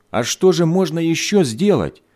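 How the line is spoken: Angry exclamation, mother. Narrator (Russian): сердито воскликнула мать

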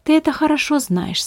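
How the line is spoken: Calm. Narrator (Russian): спокойно ответил Беппа

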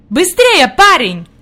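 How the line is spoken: Shouted. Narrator (Russian): крикнул господин Сесман

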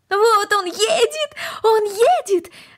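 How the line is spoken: Excited shout. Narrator (Russian): закричала Корнели

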